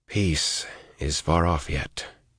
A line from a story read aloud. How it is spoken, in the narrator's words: he said softly